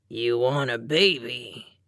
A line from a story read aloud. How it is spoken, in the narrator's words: he slurred